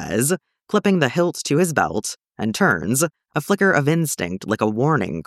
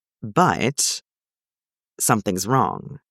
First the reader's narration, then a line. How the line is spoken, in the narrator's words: John says quietly